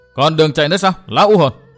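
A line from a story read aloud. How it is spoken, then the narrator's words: Triumphant exclamation. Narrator (Vietnamese): Đắc ý, chàng kêu lên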